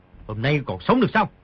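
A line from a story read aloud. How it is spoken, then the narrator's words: Shouting. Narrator (Vietnamese): quát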